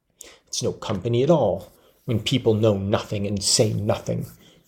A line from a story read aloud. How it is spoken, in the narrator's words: she muttered